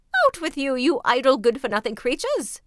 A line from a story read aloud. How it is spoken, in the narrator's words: cried they